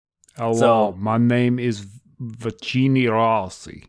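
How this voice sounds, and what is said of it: Put-on Italian accent drifting Austrian. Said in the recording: “the Eastern European Italian accent ... that was like Arnold ... That was like Austrian. You're kind of delving into Austrian territory there.”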